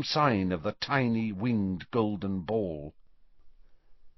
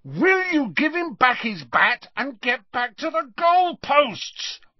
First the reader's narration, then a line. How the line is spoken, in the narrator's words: roared Harry